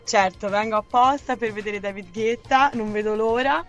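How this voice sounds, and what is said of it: Tuscan Italian accent. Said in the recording (Italian): “Un po' si sente. ... Si sente l'accento toscano.”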